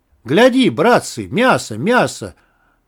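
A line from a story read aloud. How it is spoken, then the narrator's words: Rowdy, gleeful shout. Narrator (Russian): Весело и разбойно закричал Ванька Вояйков, который был сладострастен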